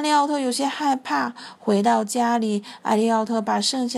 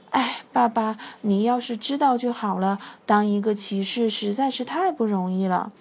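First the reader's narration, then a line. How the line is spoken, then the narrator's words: Sighing. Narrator (Chinese): 艾利奥特叹了一口气说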